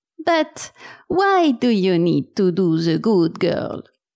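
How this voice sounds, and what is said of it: Hungarian accent, stressing first syllables. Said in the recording (French): “avec l'accent. Tu sais, les, Hongrois, ils accentuent la première syllabe comme ça.”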